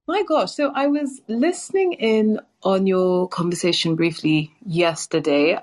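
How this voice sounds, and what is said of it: London English accent. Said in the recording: “Love the accent. ... London, England.”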